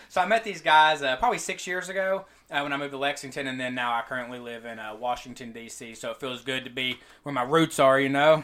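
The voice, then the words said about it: Eastern Kentucky accent. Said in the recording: “I'm actually from Eastern Kentucky. So it's Pikeville ... you'll learn probably say that a little bit more in my accent throughout this show”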